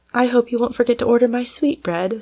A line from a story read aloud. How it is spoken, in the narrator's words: sighed Mrs